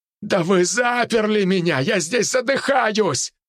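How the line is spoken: Shouted. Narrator (Russian): прокричал Максим Геннадьевич

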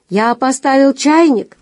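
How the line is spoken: Shout through door. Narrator (Russian): крикнул ей из-за дверей Бейс

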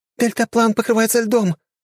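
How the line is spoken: Exclamation. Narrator (Russian): воскликнула Альма

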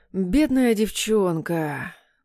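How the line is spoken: Tongue click, drawled. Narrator (Russian): прицикнув языком, протянул Любимов

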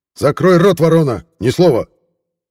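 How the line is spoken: Guard barking. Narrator (Russian): рявкнул охранник

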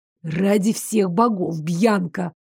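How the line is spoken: Hissing. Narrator (Russian): прошипел он

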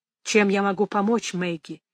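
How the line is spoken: Quiet question. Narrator (Russian): тихо спросил Ральф

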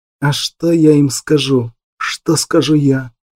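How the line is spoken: Breathless agitated whisper. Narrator (Russian): шептал, задыхаясь от волнения Ур

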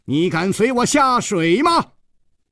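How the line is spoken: Loud shout. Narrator (Chinese): 张啸林大声地喝道

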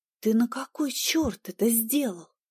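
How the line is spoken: Hiss. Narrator (Russian): Зашипела я

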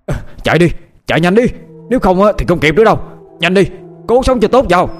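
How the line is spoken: Urgent shout. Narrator (Vietnamese): lão Mao quát lên

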